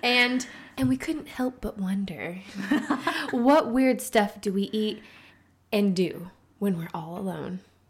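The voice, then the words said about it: Imitates a TV narrator's voice. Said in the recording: “Nice, Carrie Bradshaw ... I was doing my best impression of her”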